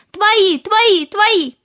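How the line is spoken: Fish answering loudly. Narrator (Russian): Рыбки громко ответили

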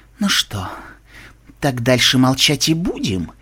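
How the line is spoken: Insinuating hiss. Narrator (Russian): Вкрадчиво прошипел он

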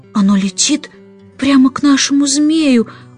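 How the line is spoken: Excited whisper. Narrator (Russian): взволнованно прошептала Джейн

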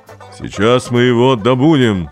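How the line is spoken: Terrifying roar. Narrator (Russian): сказала артистка Булавина, и как страшным голосом рявкнет

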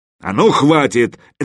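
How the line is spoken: Barked. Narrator (Russian): рявкнул Мазай

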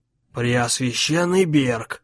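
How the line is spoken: Quiet sinister voice. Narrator (Russian): тихо сказал злой

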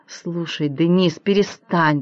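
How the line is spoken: Grumbling while sputtering water. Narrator (Russian): проворчала Шерон, отплевывая воду

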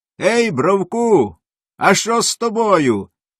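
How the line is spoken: Cat calling out. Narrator (Ukrainian): окрикнув кіт Мурко

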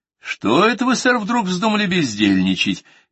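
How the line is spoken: Cheerful inquiry. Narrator (Russian): весело осведомился я

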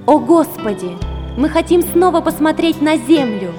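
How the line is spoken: Pleading prayer. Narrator (Russian): взмолились они

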